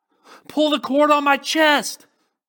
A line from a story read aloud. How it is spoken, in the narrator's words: I screamed